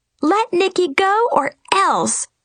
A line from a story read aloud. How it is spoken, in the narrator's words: shouted Goldilocks and Red Riding Hood